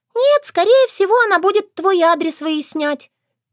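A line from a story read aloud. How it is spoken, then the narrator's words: Squeak. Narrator (Russian): пискнула Норуш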